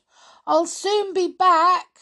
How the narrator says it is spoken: she shouted

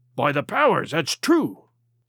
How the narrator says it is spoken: cried Silver

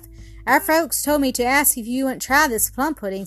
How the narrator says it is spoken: said the newcomer

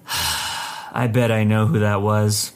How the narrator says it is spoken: she let out a deep sigh and said to me

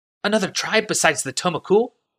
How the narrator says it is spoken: asked nervously

